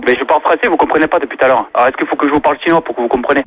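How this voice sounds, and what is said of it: Chinese accent in French. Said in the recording (French): “vous êtes un commerçant chinois ... déjà avec l'accent”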